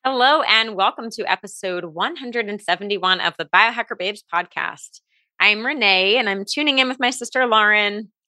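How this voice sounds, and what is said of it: Nice radio-style voice. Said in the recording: “you have such a nice voice... a voice for radio... She got that radio voice”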